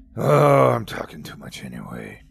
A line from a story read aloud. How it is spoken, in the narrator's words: he grumbled